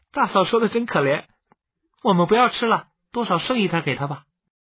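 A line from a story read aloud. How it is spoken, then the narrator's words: Laughing boy. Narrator (Chinese): 13岁的觉英 笑起来，连忙 说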